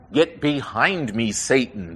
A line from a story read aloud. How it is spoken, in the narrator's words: Jesus said,